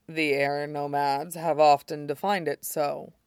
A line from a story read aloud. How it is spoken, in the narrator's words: Shidan said dryly